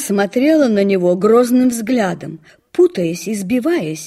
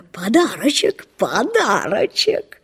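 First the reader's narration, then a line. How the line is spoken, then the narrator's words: Laughing, covering embarrassment. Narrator (Russian): Лво смеялся до самых ушей, чтобы скрыть свое замешательство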